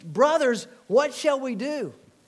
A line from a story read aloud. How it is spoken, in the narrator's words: Some of those same people cried out